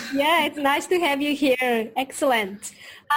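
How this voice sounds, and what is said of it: Usual voice. Nothing is said of it.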